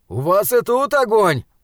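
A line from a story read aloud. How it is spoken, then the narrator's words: Shouting. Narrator (Russian): выкрикнул он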